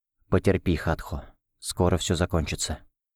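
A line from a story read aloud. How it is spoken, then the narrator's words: Whisper. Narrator (Russian): прошептал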